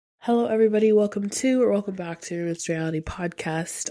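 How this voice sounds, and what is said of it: Sick, sniffly voice. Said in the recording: “If you can't tell by my voice, obviously I'm not doing well at the moment ... the beginning of the sickness ... I hope that my voice isn't too unbearable ... every single sniffle”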